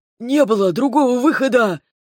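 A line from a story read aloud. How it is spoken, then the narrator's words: Shocked breath. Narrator (Russian): потрясенно выдохнул названный Лайдалом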